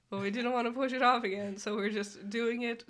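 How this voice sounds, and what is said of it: Congested, sick-sounding voice. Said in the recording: “as you can probably hear from my voice, I also then got sick ... plugged up throats and noses”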